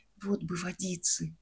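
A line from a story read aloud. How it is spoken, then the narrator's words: Dying man's whisper. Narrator (Russian): один умирающий шептал мне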